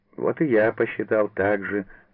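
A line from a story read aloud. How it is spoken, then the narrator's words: Laughing. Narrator (Russian): засмеялся Савва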